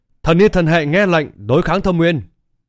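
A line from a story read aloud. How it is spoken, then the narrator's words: Angel shouting loudly. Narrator (Vietnamese): Một lục dục thiên sứ từ trong thiên sứ tộc bắn ra hét to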